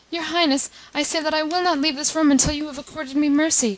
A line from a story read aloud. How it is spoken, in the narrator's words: cried Chichikov